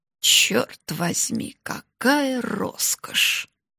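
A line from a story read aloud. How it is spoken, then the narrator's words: Mumbling. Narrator (Russian): пробормотав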